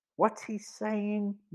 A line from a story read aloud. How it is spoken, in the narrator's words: whispered Tony